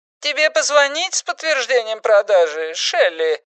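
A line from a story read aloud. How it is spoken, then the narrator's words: Squeaky question. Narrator (Russian): спросил своим писклявым голосом Эрл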